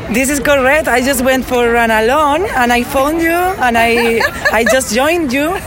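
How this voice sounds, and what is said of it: Foreign accent, from Spain. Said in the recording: “I am hearing some accents. You guys are not from around here. ... Spain.”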